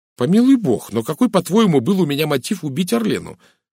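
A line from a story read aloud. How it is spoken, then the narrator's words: Sharp question. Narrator (Russian): резко спросил Розамунд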